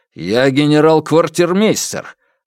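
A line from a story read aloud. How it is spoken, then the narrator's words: Barking shout. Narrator (Russian): рявкнул Алексей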